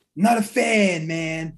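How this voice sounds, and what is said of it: Imitates another person's voice. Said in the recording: “my best Booker impression, I guess. sounded more like a RVD”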